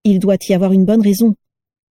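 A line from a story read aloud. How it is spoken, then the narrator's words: Plain. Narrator (French): dit Narcissa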